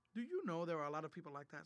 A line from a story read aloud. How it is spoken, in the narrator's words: said George